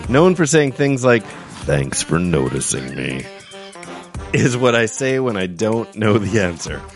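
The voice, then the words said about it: Spot-on impersonation of someone. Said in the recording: “I like your impersonation. ... Pretty spot on.”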